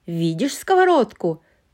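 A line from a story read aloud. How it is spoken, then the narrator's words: Shouting. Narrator (Russian): крикнула Эльза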